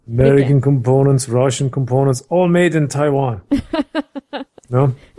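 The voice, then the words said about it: Put-on Russian accent. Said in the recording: “That's a good accent. ... the same Russian accent”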